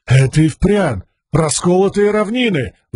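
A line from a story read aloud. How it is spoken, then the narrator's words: Exclaimed. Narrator (Russian): воскликнул один из рабов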